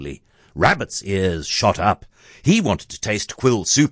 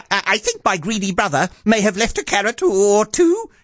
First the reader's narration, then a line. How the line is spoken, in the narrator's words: he blurted